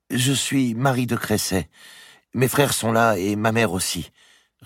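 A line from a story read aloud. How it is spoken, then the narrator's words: Young girl, hesitant. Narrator (French): répondit la jeune fille d'une voix hésitante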